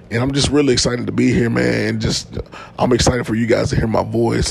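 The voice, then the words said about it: Slightly hoarse voice. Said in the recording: “my voice sounds hoarse a little bit... I've been under the weather... I had a little cold this week... If I'm sounding a little hoarse”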